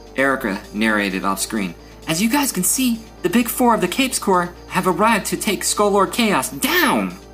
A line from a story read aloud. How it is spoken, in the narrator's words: She gasped